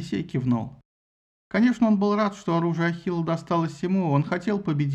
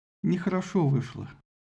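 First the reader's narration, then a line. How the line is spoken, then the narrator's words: Quiet. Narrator (Russian): Агамемнон тихо сказал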